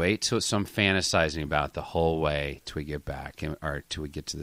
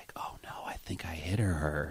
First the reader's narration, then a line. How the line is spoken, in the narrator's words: Or she could have whispered like